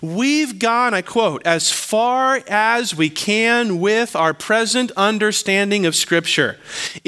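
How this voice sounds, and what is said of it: Slow deliberate reading. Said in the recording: “read it slowly”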